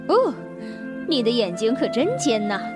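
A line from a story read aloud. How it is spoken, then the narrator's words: Plain. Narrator (Chinese): 老鼠一边说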